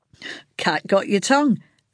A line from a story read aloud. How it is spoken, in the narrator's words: Frank chuckled